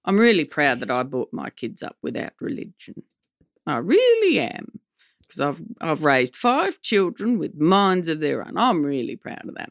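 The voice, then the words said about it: Impression of the speaker's mother. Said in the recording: “I like impersonating my mom.”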